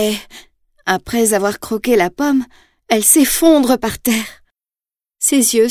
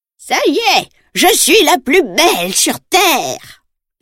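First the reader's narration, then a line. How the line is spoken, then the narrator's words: Witch cackling. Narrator (French): ricane la sorcière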